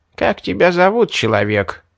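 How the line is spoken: Creaky old woman's voice. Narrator (Russian): старуха проскрипела

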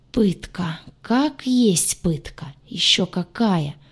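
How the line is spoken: Groan. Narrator (Russian): простонала я

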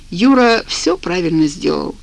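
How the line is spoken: Calm. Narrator (Russian): спокойно сказал

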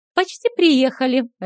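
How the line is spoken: Cheerful. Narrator (Russian): радостно сообщила Стэйси

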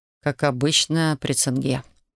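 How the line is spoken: Gentle interjection. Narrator (Russian): мягко вставил Александр

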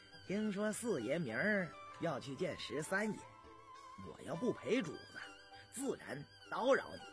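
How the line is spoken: Laughing. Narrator (Chinese): 李卫笑了

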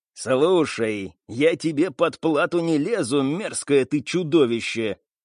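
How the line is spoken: Growling. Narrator (Russian): рыкнула Селен

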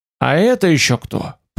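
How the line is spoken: Muttered. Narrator (Russian): пробормотал я

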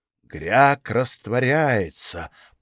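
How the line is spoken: Grandiose goblin whisper. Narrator (Russian): пафосно прошептал гоблин

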